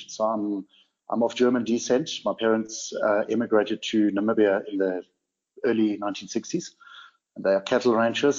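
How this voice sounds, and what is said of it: Blended accent. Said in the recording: “you might hear in my accent that I'm a bit of a blend”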